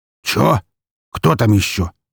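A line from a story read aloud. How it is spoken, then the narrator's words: Deep grumble, muffled. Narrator (Russian): раздалось босовитое ворчание из-за здоровенной коробки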